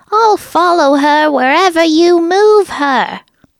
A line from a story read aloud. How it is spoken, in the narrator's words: enraged Jeff enough to scream